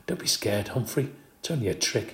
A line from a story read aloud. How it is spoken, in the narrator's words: whispered